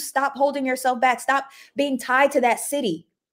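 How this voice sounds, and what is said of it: Yelling loudly into the mic. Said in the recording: “I'm yelling. Let me move my mic back.”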